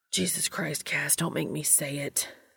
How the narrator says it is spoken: he hissed

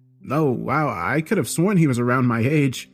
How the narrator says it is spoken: said with an awkward laugh

